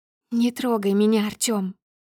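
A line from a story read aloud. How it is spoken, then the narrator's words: Trembling voice, repeating. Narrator (Russian): повторяю дрожащим голосом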